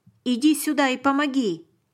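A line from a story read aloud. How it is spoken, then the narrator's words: Soldier shouting. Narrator (Russian): крикнул один из солдат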